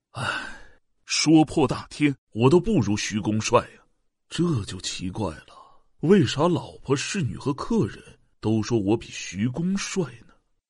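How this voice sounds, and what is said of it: Quiet muttering to himself. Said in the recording (Chinese): “小声嘀咕着”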